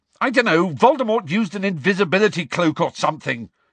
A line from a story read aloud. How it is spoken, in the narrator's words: Harry shouted